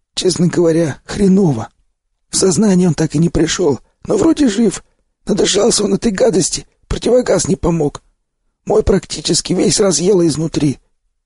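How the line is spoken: Hoarse telling. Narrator (Russian): поведал мне сиплый

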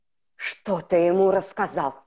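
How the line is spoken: Growled. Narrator (Russian): прорычал Бэйн

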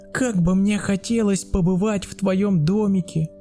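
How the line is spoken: Child's excited exclamation. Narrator (Russian): воскликнул малыш

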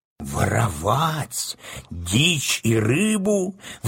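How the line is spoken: Trembling exclamation. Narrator (Russian): воскликнул Касталия дрожащим голосом

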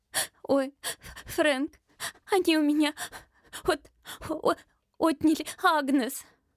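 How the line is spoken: Sobbing. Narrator (Russian): Она всхлипнула

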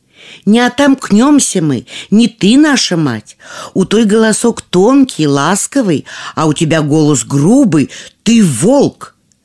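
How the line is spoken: Young goats shouting. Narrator (Russian): козляточки крикнули ему

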